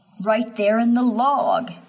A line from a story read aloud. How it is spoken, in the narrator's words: he whimpers